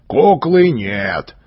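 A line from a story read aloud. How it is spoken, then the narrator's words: Sad bass voice. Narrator (Russian): говорил кучер печальным басом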